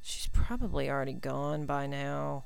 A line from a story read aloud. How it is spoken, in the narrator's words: he mumbled